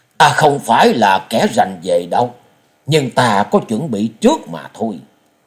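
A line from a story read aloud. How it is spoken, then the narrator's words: Smiling. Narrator (Vietnamese): quái nhân mỉm cười nói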